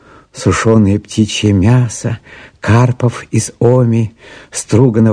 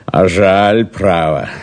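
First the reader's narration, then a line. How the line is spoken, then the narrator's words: Mocking, contemptuous. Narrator (Russian): сказал он, насмешливо и презрительно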